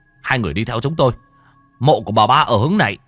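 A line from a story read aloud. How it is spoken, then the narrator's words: Tall man shouting. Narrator (Vietnamese): Người đàn ông cao lớn lúc nãy mới hét lên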